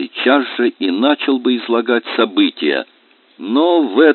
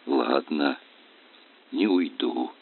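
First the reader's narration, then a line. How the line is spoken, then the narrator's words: Quiet reply, monk. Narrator (Russian): так же негромко ответил монах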